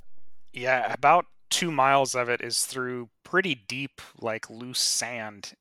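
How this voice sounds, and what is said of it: Nasal, slightly raspy voice. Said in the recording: “my voice may be a little more nasally than normal, a little raspy sounding ... trying to fight off this cold”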